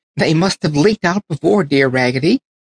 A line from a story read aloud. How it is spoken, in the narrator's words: cried all the other dolls